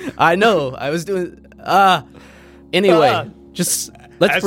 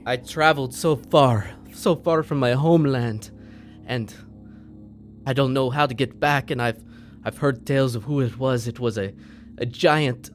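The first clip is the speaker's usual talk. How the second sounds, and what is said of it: Attempted Irish accent. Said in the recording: “that's not my accent ... I don't know my accent ... I was trying to do an Irish accent”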